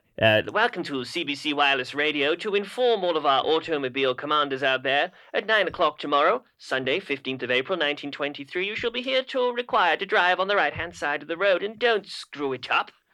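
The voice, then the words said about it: Put-on British accent. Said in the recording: “Do you want the British accent again?”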